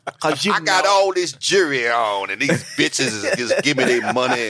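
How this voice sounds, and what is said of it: Impression of Bishop Don Magic Juan. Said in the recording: “Don Juan ... Bishop Magic ... I'm trying to do his voice in my head.”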